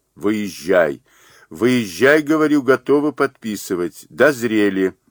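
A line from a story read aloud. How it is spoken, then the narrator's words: Shouting into phone. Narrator (Russian): По извечному обычаю русского человека, привыкшего к технике времен даже не Попова, Грэхэма, Белла, Мазур закричал в трубку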